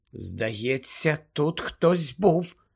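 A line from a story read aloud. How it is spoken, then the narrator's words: Whispered. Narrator (Ukrainian): прошепотіла Герміона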